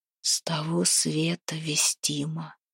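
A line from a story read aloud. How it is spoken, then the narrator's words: Hushed whisper. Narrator (Russian): шепотом ответил Демка, будто боялся разбудить красавицу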